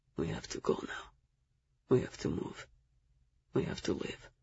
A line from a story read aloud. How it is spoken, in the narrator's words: Zell leaned in close, his lips against my ear, and whispered